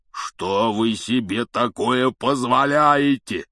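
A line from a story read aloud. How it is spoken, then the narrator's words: Thunderous roar. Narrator (Russian): прогремел он так, что все трое подпрыгнули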